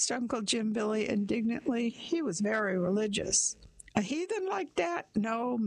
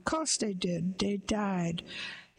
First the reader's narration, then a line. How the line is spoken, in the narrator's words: went on, pursing his mouth gloomily